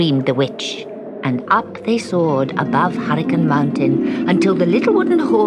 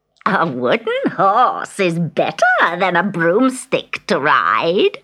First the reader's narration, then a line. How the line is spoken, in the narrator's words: cackled